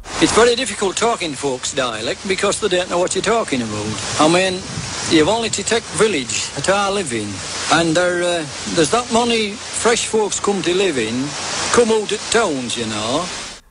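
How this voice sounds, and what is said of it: Yorkshire accent. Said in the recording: “that is a man speaking in a Yorkshire accent.”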